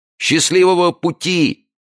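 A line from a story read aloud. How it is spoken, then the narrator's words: Shouting. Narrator (Russian): прокричал им Джо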